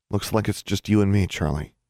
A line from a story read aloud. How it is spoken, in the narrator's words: she murmured